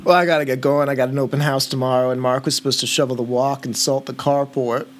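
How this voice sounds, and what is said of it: Thick Boston accent. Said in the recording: “I can barely understand you ... super Boston-y ... your thick accent”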